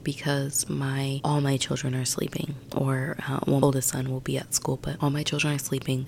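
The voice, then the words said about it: Very soft-spoken, near-whispering voice. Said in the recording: “a lot of people saying that I whisper. This is my voice. I'm just really soft-spoken, and sometimes it is at a bit of a whisper ... I do try to tone it down”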